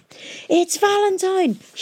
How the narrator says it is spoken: shouted Tom

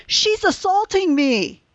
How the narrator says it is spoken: started shouting

